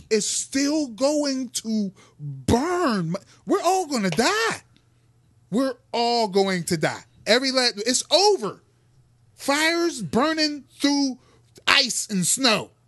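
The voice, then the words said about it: Yelling, agitated loud voice. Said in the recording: “I'm sorry for yelling. I'm peeking.”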